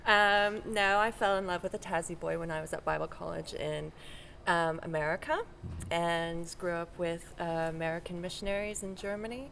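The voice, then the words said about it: Non-Australian accent. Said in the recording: “that is not an Australian accent”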